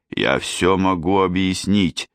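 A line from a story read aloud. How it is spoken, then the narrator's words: Plain. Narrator (Russian): сказал он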